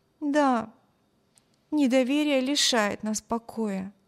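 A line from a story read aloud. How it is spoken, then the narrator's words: Sighing. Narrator (Russian): вздохнула Эми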